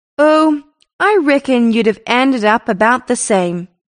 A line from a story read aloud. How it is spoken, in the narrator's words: said Bob Tidball, cheerfully philosophical